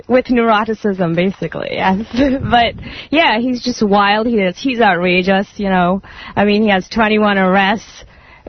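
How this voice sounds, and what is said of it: Slight English accent. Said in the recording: “You have a bit of an accent. ... I was born in England. I was raised there.”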